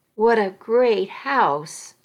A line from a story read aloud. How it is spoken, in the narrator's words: I exclaimed